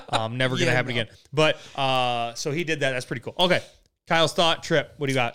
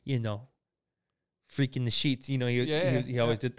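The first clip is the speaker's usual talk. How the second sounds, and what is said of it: Imitates another person's accented voice. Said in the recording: “That was probably the best accent I could have ever done for Giannis in my life”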